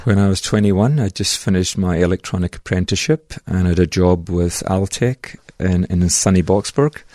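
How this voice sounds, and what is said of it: Scottish Glasgow accent. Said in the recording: “that accent comes from Scotland ... 100% from Bonnie Glasgow”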